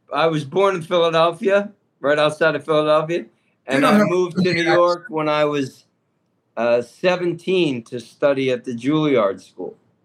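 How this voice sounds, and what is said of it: New York accent. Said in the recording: “you have a New York accent, not a Philly accent.”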